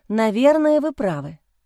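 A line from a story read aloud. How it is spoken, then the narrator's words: Sigh. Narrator (Russian): вздохнула Лиза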